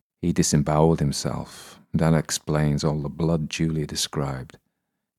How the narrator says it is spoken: I say grimly

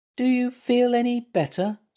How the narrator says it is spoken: squeaked Little Mutt

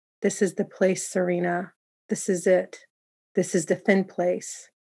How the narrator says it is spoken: say quietly

